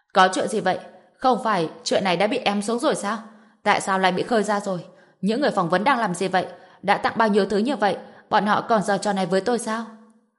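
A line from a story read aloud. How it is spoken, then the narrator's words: Furious yell. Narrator (Vietnamese): Bạch Sùng Sơn vội vã liên hệ với người của mình, phẫn nộ gào lên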